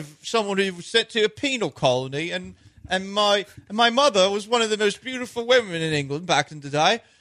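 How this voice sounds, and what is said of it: Put-on British accent, like Austin Powers. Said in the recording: “I know who you sound like. ... Austin Powers. ... This in a British accent”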